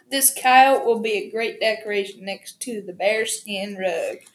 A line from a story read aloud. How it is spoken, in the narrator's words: Ozzy chuckled